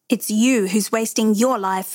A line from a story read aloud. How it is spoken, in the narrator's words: May snapped